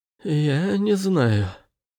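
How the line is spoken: Hoarse rasp. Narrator (Russian): прохрипел Андерс

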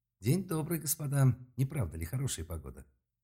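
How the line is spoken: Courteous tone. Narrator (Russian): Учтивым тоном произнес новоприбывший

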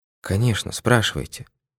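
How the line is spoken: Tired voice. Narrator (Russian): ответила она усталым голосом

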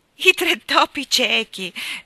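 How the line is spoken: Laughing explanation. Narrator (Italian): spiegò Alfredo ridendo

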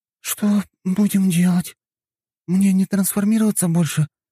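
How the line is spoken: Uncertain young woman asking. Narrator (Russian): неуверенно спросила девушка

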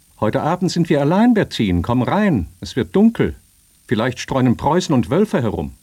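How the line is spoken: Distant call from inside. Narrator (German): Vom Hausinnern her rief eine Stimme

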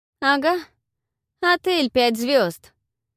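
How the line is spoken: Distant shout. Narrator (Russian): крикнула с веранды Павла

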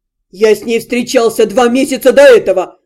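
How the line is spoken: Howl. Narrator (Russian): Взвыл Дальшер

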